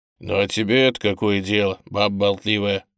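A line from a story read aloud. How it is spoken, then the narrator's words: Embarrassed grumble. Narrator (Russian): заворчал на него Митька, чтобы скрыть свое смущение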